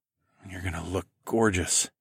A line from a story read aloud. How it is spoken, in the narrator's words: I murmured